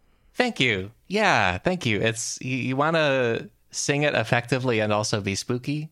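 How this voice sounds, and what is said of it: Usual voice. Nothing is said of it.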